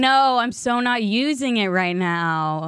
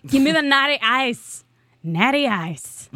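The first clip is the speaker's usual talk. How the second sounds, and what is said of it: Attempted American accent sounding Irish. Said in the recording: “Was that an American accent? It was like Irish. ... It was totally meant to be ... American.”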